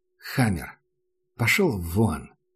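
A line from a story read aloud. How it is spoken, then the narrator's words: Tired. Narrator (Russian): устало сказал Макс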